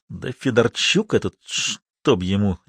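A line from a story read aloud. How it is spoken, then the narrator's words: Quiet snap. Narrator (Russian): негромко огрызнулся Максимов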